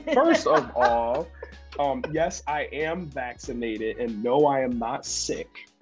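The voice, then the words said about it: Slightly congested nasal voice. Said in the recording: “you sound a little congested”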